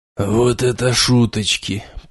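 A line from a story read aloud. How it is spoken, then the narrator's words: Muttering under breath. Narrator (Russian): пробормотал себе под нос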